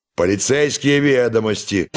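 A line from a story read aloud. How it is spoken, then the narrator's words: Sudden loud demand, old soldier. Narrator (Russian): Вдруг отставной военный громко потребовал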